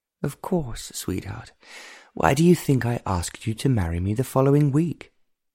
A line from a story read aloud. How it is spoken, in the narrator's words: Tamina sighed